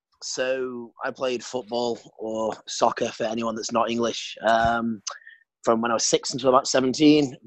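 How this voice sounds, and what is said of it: British accent. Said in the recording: “British, as you can hopefully still tell from my accent”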